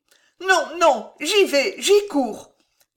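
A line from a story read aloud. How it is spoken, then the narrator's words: Moved exclamation. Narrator (French): s'écria Marie touchée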